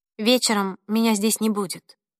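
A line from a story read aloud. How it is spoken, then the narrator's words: Calm declaration. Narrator (Russian): спокойно заявила она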